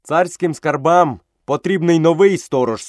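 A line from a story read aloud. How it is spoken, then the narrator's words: Stern boy. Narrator (Ukrainian): суворо сказав хлопчик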